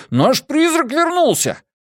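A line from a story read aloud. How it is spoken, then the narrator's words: Joyful shout. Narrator (Russian): Джеспер радостно закричал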